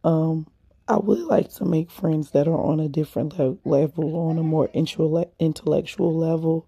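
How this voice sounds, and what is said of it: Raspy voice. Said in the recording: “I hope my voice wasn't too raspy. ... that baby needs some lemon tea”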